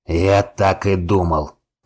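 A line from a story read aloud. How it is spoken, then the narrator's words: Growl. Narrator (Russian): прорычал Вайнер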